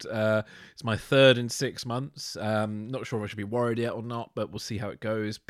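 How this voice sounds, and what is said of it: Congested voice from a cold. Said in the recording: “as some people may hear in my voice, I'm recovering again from a cold.”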